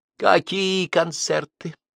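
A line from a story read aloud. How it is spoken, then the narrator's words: Tender question. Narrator (Russian): нежно спросила Надюха маленькая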